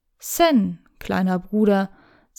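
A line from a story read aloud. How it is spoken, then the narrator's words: Plain. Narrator (German): sagte er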